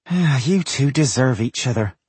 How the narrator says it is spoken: Frala sighed

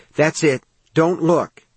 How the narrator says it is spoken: he panted

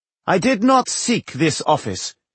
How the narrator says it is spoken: he said in a loud, clear voice

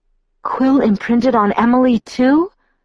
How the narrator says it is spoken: I gasped

